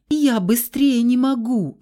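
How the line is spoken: Whimpering child. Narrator (Russian): захныкала сестричка

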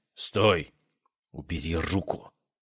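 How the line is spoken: Hissing. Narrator (Russian): Прошипела она

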